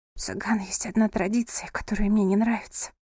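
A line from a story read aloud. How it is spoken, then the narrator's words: Whisper. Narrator (Russian): прошептала она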